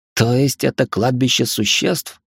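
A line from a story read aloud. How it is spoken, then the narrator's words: Hoarse, faltering question. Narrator (Russian): севшим голосом спросил я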